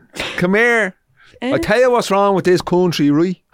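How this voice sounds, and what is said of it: Bad put-on Dublin Irish accent. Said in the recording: “So like a Dublin accent would be different to mine ... That was a bad accent.”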